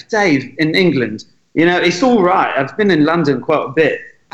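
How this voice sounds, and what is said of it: Put-on English accent. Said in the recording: “what if I talk like this for Dave? ... You got the right accent.”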